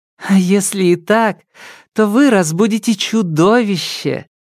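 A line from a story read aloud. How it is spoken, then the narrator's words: Laughing. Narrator (Russian): засмеялась Лидия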